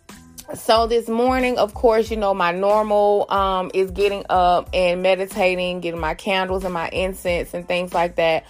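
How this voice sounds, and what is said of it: Congested, stuffy-nosed voice. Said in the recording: “you can probably even hear it in my voice. I'm a little bit stopped up.”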